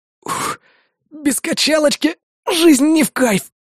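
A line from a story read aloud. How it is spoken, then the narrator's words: Hoarse wheeze. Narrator (Russian): прохрипел я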